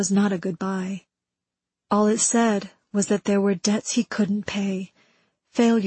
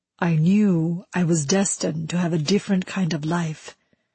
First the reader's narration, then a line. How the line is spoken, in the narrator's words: he said